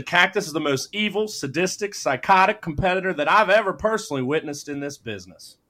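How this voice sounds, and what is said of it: Good impression of JR. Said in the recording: “It's a good JR impression.”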